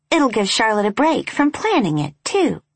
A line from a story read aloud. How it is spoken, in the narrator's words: she'd cooed